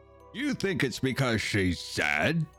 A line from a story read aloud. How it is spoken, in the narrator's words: scoffed the master